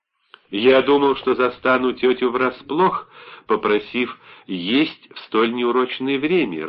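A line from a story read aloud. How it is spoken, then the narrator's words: Laughing. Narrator (Russian): рассмеялся Биной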